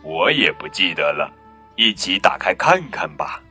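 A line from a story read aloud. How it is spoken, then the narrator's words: Laughing reply. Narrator (Chinese): 爸爸笑着回答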